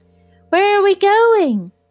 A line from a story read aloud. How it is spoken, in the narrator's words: she cried